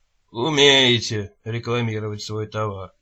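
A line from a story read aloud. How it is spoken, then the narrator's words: Grumbling. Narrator (Russian): пробурчал детектив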